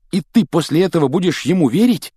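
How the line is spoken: Angry exclamation. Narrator (Russian): гневно воскликнул Рон, получив хорошую оплеуху

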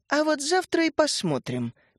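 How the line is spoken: Exaggeratedly calm. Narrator (Russian): преувеличенно спокойно произнесла Дарья Антоновна

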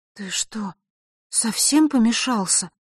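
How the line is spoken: Bewildered. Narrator (Russian): растерянно произнесла она

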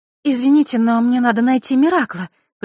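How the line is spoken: Forced even cheerful voice. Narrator (Russian): произнесла Василиса, стараясь изо всех сил, чтобы голос звучал ровно и весело

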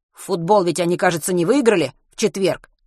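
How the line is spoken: Plain. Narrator (Russian): спросил Матвей

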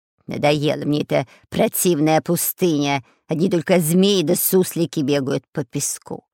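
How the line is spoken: Nasty creaking voice. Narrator (Russian): Противным голосом заскрипел шпион Дырка

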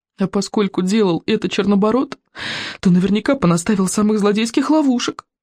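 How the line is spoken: Groaned. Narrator (Russian): простонал Рыбинок

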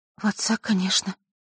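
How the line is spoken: Smiling through tears. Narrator (Russian): улыбнулась Василиса сквозь слезы

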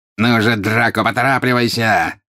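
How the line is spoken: Angry exclamation. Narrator (Russian): сердито воскликнул жестоколицый

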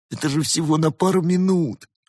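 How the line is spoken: Whining. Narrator (Russian): захныкал великан

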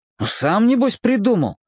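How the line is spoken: Snapped. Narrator (Russian): огрызнулся он

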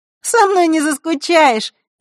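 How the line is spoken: Cheerful reassurance. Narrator (Russian): весело заверила Захара

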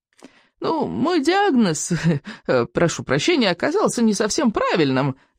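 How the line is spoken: Nervous old man's giggle. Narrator (Russian): нервно хихикнул старый сморчок

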